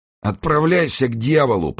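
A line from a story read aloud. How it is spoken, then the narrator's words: Through gritted teeth. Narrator (Russian): процедил итальянец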